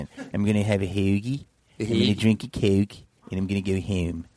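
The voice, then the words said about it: Exaggerated Philadelphia accent. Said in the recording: “here's a Philly accent ... It's kind of Baltimore, but worse.”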